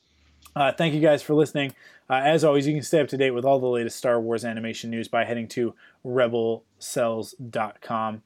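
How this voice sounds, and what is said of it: Hoarse, fading voice. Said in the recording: “I'm starting to lose my voice.”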